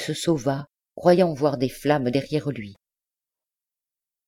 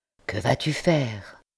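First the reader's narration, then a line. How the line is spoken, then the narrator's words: Whispered question. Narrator (French): demanda tout bas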